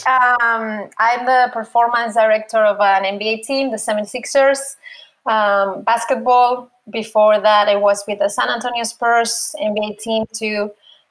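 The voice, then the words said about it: Spanish accent. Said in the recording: “Spaniard. Apologize for the accent.”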